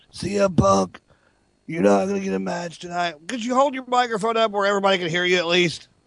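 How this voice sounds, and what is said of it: Impression of John Laurinaitis. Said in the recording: “That's a perfect impersonation, actually.”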